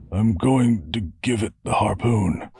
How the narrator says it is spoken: Darl muttered

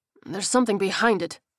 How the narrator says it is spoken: he grunted

